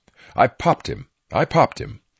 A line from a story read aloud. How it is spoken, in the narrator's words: Hunter replied in a loud voice